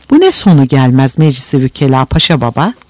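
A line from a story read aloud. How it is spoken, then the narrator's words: Plain. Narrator (Turkish): dedi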